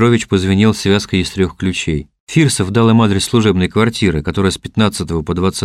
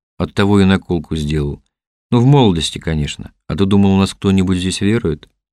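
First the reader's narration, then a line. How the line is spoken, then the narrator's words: Sigh. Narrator (Russian): Лиманский вздохнул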